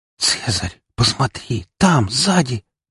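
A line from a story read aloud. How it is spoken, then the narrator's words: Whispered. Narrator (Russian): прошептала Фокси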